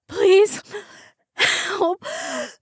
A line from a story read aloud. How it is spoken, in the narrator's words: she gasped, swallowing back the vomit that was gurgling up her throat